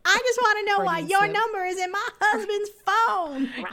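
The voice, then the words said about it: Steel Magnolias-style character impression. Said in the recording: “That was a very good, like, Steel Magnolias kind of impersonation”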